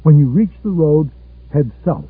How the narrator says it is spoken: they had said

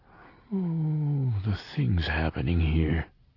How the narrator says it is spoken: he said in a low voice

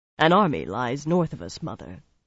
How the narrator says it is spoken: replied calmly

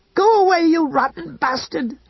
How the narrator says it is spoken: she screamed

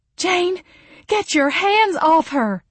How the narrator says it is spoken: Mama yelled

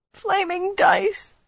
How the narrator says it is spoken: whimpered

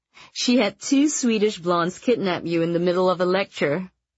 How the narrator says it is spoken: Rachel laughed

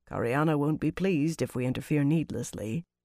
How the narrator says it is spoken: Venner Kosan said quietly

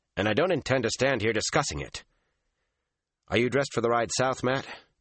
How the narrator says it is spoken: he told her sharply

